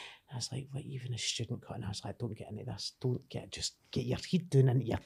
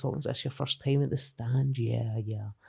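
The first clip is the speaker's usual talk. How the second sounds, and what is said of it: Posh Glasgow accent. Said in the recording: “that accent, you know, that Glasgow, like that posh Glasgow accent.”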